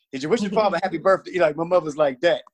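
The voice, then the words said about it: Talking very fast. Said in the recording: “I'm talking too fast.”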